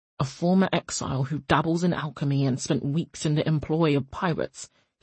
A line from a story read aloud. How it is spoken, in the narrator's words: he said dryly